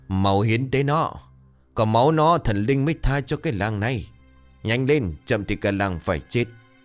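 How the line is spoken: Frenzied crowd howling. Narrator (Vietnamese): đám ngu dân như một ổ quỷ bắt đầu hò hét và gào rú

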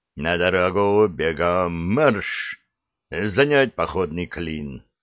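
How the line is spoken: Muffled barked command. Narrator (Russian): командир глухо рявкнул

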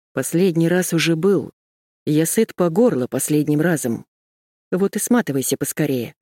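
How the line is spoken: Calm speech. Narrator (Russian): спокойно сказала

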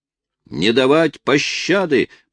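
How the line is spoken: Shouted in French. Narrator (Russian): по-французски крикнул один из преследователей

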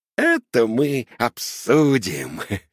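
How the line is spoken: Laughing. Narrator (Russian): Рассмеялся папа Карло

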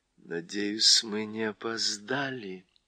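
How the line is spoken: Quiet addition. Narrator (Russian): тихо прибавила Уинни

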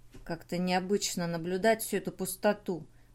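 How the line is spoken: Muttered. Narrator (Russian): пробормотал Рэй

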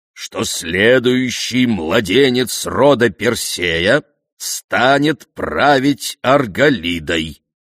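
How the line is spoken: Loud and distinct. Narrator (Russian): произнес он громко и отчетливо

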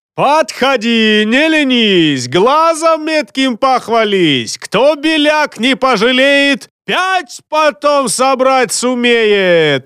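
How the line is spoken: Booming bass, mangled words. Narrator (Russian): Орал он дубовым мощным басом, немного коверкая слова

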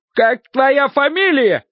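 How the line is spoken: Coachman shouting. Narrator (Russian): кричал кучер

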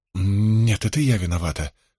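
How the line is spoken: Stammering mumble. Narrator (Russian): запинаясь, пробормотала она

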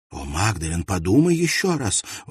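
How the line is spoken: Exclamation. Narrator (Russian): воскликнула Нора

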